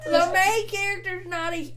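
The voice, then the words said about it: Put-on southern US accent. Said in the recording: “Now I can't stop talking in this accent... I'm sorry to all of our southern listeners.”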